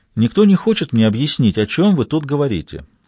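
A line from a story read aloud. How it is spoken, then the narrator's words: Calm inquiry. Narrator (Russian): спокойно осведомилась Кэрол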